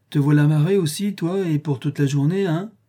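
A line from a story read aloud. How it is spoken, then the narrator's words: Plain. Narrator (French): dit-il enfin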